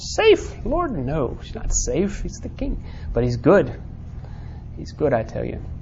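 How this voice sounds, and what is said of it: Weak put-on character accent. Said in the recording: “That was a really weak accent, wasn't it? That's what beavers sound like, though.”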